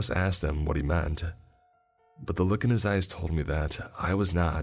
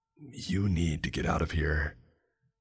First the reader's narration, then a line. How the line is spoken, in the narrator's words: Mason lowered his voice down to a whisper and said